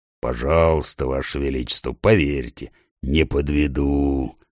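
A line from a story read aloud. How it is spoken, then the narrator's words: Deep bass bear voice. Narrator (Russian): пробасил медведь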